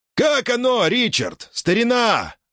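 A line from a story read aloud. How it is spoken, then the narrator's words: Yelled. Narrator (Russian): завопил Келлахан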